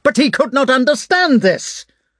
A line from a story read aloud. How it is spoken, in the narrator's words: cried Prince Andrei in a shrill voice that seemed to escape him involuntarily